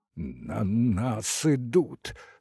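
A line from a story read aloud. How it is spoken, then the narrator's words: Trembling voice, clenched teeth. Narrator (Russian): сквозь стиснутые зубы проговорил дрогнувшим голосом Сашка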